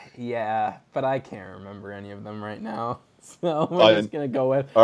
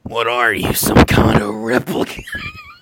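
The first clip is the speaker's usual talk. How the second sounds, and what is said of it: Imitates another person's voice, badly. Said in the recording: “my horrible Harrison Ford impression ... Yeah, it is indeed horrible.”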